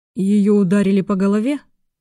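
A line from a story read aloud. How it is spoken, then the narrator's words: Gloomy question. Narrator (Russian): мрачно осведомился Тимур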